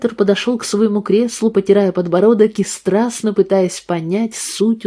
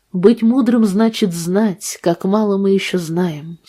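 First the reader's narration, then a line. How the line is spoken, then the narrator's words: Calm. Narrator (Russian): спокойно сказал Гейб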